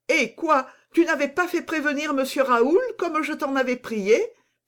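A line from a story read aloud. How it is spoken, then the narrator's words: Exclaimed. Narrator (French): s'écria Louise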